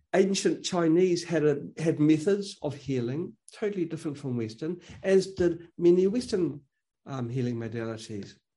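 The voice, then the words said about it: Noticeable accent. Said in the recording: “You can probably tell by my accent.”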